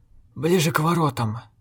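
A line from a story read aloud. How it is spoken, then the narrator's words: Hoarse. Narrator (Russian): проговорил некромант хрипло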